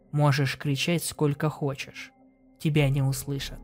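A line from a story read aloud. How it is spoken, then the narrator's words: Calm speech. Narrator (Russian): спокойно проговорил Степан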